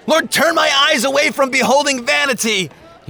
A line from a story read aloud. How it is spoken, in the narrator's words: He shouted